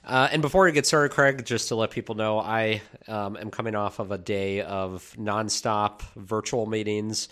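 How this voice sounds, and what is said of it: Nasal, congested voice. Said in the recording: “feeling nasally from a cold that I'm getting over that's lingering ... that sultry, sexy voice you had”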